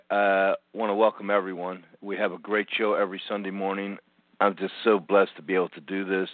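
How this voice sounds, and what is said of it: Hoarse, fading voice. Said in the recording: “it seems as though I'm losing my voice a little bit here this morning already”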